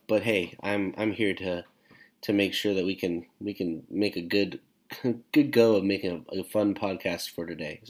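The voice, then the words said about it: Congested, deep voice. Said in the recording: “I am currently rocking a congestion sound, so my deep voice ... excuse the occasional coughs”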